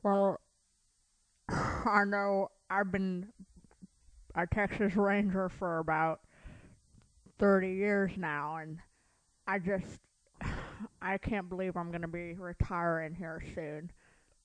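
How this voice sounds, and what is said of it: Imitates another person's voice, speech impediment. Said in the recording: “a very interesting voice/accent/affect speech impediment by Mr. Bridges that ... is going to try to do”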